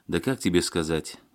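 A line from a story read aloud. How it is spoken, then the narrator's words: Sighed. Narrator (Russian): вздохнул Серега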